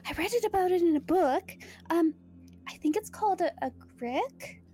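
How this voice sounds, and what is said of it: Put-on accent. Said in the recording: “I don't know why I'm getting someone's accent.”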